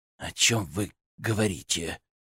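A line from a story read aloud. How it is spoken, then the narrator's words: Hollow-voiced question. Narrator (Russian): глухим голосом спросил Юрий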